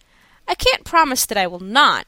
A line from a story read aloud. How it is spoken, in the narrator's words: I answered, with a smile and a sigh, for he was handsome